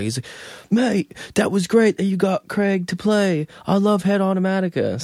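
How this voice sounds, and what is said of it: British accent. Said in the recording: “your British accent is great ... I'm shaping it as we speak”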